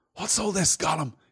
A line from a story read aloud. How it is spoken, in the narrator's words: he said in a whisper